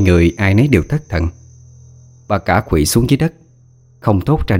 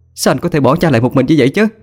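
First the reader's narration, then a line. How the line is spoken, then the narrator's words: Shouting. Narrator (Vietnamese): Hà hét lên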